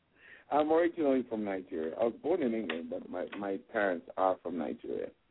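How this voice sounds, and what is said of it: Mixed Nigerian-British-transatlantic accent. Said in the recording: “your accent is kind of mixed ... It's a confused accent ... Transatlantic”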